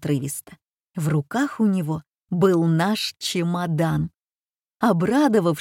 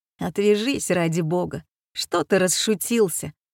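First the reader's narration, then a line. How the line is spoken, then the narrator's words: Mumbled grumbling. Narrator (Russian): ворчал Ильинский невнятно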